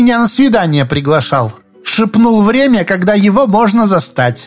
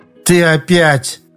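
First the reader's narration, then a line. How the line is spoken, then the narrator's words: Irritated, curt. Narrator (Russian): раздраженно бросила она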